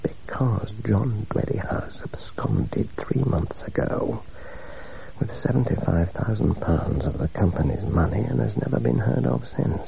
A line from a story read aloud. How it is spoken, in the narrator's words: replied Captain Prendergast, dropping his voice to the lowest whisper